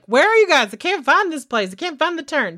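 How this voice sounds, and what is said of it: Weak put-on Texas twang. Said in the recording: “They're from Texas. I'm really sorry. That was really bad. I don't know where my little like weird twang came in.”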